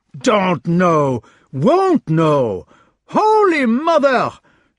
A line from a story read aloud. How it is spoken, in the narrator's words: shouted Uncle Dapp